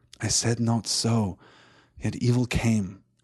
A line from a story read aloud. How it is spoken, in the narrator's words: answered Legolas sadly